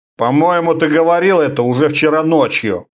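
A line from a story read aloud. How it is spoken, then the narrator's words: Grumbled. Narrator (Russian): проворчал Орда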